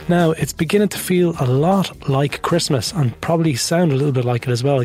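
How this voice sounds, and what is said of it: Congested voice with a cold. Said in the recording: “You can probably hear in my voice, I've got a cold.”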